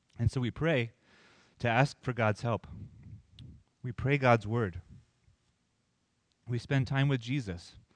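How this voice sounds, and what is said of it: Strained, failing voice. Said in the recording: “Losing my voice here.”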